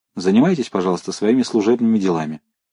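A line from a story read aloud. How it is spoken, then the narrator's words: Sharp. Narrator (Russian): Новиков резко сказал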